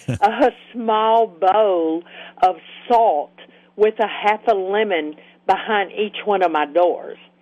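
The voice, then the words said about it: Speaker's own regional accent. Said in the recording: “my accent gets in the way”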